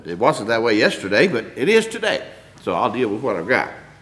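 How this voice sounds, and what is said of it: Slightly hoarse, strained voice. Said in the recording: “My voice is a little hindered.”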